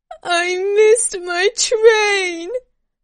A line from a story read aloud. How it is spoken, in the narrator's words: roared, sobbing nervously